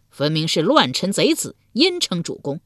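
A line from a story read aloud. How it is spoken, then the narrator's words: Crowd jeering mockingly. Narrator (Chinese): 众人讥笑道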